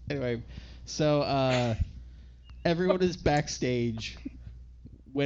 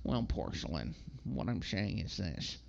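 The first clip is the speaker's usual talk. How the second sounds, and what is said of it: Sue Sylvester impression. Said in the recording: “do your Sue Sylvester ... So much better than your Jennifer Coolidge impression”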